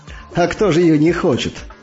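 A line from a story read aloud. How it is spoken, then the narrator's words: Laughing. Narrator (Russian): рассмеялся Иван Иванович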